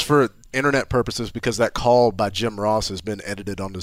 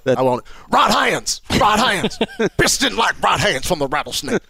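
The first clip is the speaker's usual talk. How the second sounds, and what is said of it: Impression of Jim Ross commentating. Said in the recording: “imitating Jim Ross”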